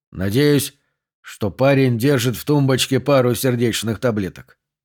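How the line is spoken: Muttered. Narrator (Russian): пробормотал О'Шонесси

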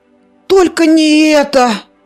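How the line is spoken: Groaned. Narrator (Russian): простонал Зарубик

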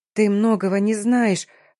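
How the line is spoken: Mumble. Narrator (Russian): промямлила я, пытаясь сообразить

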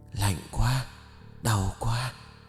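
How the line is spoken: Trembling voice. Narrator (Vietnamese): giọng nói run rẩy kia

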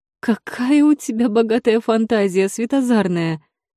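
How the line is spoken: Laughing. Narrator (Russian): Рассмеялась Злодиэль

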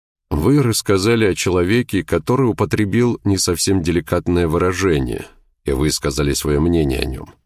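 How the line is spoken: Calm even tone. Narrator (Russian): продолжал Треллор спокойным ровным тоном

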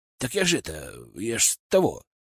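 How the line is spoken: Mumbling assistant. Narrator (Russian): начал мямлить мой помощник

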